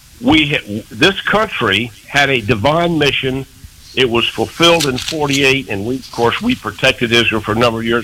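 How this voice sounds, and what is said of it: Troubled, strained voice. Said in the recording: “my voice is giving me trouble here today”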